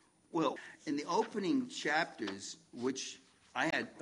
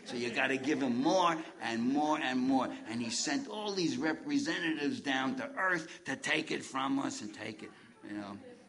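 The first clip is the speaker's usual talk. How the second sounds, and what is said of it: Imitates another person's voice. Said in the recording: “my George Carlin imitation”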